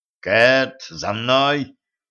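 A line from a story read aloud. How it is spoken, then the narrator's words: Growl. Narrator (Russian): прорычал Денис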